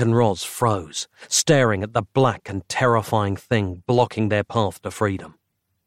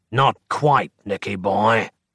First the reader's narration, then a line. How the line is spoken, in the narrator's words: said a rasping voice